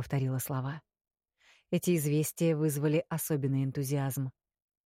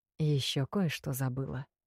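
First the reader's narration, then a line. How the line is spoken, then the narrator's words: Conspiratorial whisper. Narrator (Russian): напомнил император заговорщическим шепотом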